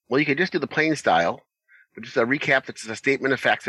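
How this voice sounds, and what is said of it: Usual voice. Nothing is said of it.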